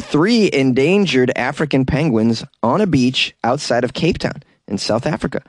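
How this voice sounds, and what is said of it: Usual voice. Nothing is said of it.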